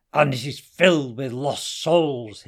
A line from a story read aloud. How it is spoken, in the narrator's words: hissed Hassan dangerously